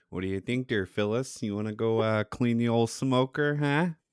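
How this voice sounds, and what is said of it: Put-on Midwest American accent. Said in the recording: “that fucking Midwest accent, man ... that's exactly how they sound”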